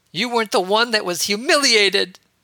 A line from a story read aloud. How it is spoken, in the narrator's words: Ahsoka cried as tears welled up in her blue eyes and began to run down her face